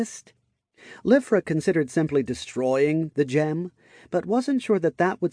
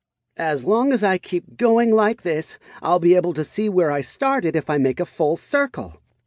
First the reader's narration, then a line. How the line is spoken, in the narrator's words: she shouted aloud